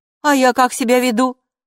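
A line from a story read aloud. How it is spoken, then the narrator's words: Snapping retort. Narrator (Russian): огрызнулась Хилла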